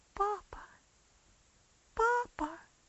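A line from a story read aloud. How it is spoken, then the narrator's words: Sobbing. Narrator (Russian): всхлипывала она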